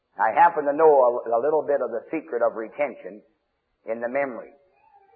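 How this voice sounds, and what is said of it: Usual voice. Nothing is said of it.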